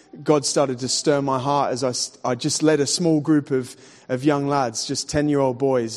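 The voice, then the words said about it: Australian accent. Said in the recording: “I've got a funny accent. I'm actually from Sydney, Australia.”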